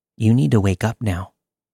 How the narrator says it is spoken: calmly said

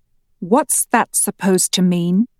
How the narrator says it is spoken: Andy asked slowly

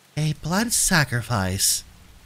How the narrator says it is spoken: the goddess sighed

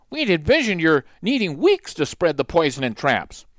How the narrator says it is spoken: Another exclaimed

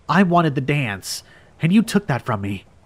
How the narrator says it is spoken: she said, her voice chiller than a newborn frost

